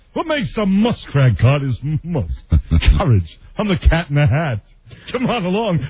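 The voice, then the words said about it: Mike Myers' Cat in the Hat impression. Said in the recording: “the basically Mike Myers Cat in the Hat ... his character was basically an impersonation of Bert Lahr”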